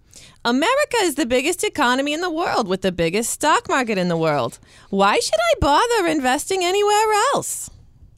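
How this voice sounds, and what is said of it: Exaggerated American New York accent. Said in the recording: “butchered U.S. accents ... Very butchered ... the persona of the typical American tourist ... in New York ... my awesome accent”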